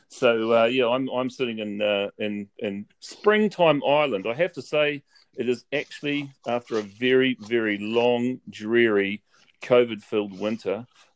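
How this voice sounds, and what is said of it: New Zealand accent. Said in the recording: “we have two New Zealanders so are you going to get a double helping of Antipode and Twang”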